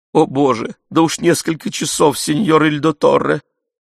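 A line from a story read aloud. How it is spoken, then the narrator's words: Sobbing. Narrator (Russian): Рыдающая Пьеранджело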